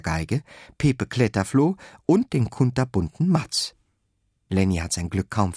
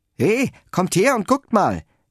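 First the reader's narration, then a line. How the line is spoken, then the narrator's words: Strong loud call. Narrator (German): ruft der bärenstarke Bo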